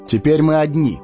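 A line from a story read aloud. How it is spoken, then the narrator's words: Plain. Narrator (Russian): сказал он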